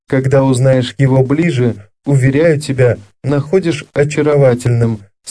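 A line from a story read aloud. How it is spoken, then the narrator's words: Plain. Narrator (Russian): сказал Оливье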